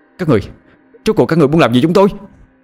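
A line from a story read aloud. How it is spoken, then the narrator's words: Angry yelling. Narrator (Vietnamese): Hoàng giận dữ la hét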